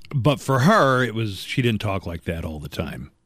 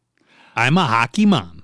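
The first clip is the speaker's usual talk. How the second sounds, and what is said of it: Folksy Alaskan accent imitation. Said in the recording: “That accent wasn't there until she was a politician. ... It's a folksy affectation ... But we do have the accent here.”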